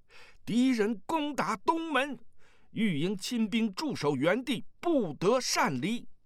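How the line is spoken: Shout from passing rider. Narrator (Chinese): 骑着马从屋外驰过 大声叫道

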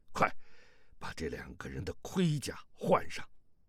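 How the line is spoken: Low voice. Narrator (Chinese): 萧峰低声道

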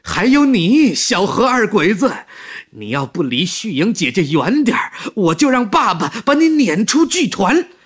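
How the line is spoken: Shouting. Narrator (Chinese): 他又指着何一平喊起来

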